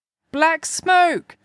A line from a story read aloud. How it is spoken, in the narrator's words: the voices cried